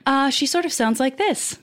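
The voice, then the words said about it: Polite robot voice. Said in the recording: “robot voice ... So a little more polite than your actual voice.”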